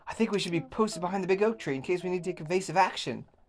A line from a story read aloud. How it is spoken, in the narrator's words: Billy shouted excitedly